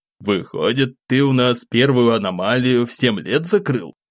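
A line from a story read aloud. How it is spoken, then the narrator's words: Amused snort. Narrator (Russian): хмыкнул дядя Слава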